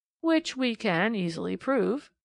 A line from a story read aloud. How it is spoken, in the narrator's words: came in Sir Arthur Inglewood's drawly tones